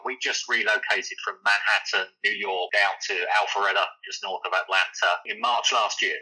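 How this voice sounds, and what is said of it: London English accent. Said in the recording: “listeners can probably tell from my accent that I'm not really not from Georgia. I'm not from the US originally. I'm a Londoner.”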